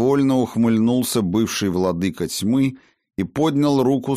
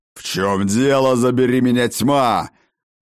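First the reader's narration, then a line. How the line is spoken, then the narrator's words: Furious roar. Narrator (Russian): Взревел разъяренный Ракот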